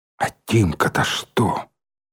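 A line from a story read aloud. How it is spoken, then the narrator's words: Barely audible whisper. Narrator (Russian): еле слышно прошептал Николай Николаевич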